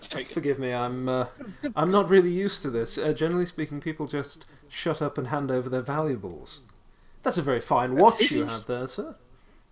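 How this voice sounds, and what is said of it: Suave, sophisticated British-accented character voice. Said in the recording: “speaking, by the way, in a British accent? ... Yes ... rather suave and sophisticated.”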